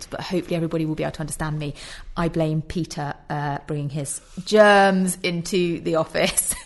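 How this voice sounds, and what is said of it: Slightly nasal, congested voice. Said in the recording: “I sound a little nasal. I have got a head cold”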